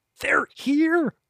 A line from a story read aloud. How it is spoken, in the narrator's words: Fallow wheezed